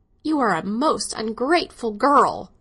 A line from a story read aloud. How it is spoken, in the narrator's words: she cried